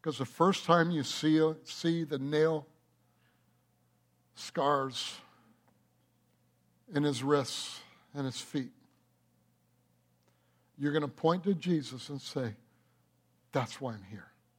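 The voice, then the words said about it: Emotional, choked-up voice. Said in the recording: “I'm going to get emotional here.”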